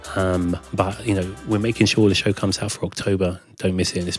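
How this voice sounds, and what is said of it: Slightly hoarse voice. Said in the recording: “You can probably hear me. I'm still a little hoarse.”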